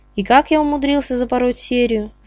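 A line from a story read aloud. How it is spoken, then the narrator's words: Sigh. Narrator (Russian): вздохнул Павлов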